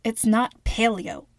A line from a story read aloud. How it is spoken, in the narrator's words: London said